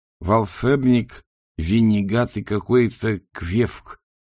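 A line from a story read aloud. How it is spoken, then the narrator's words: Lisping through fangs. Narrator (Russian): прошепелявил бог-крокодил Афлер, которому, как обычно, мешали клыки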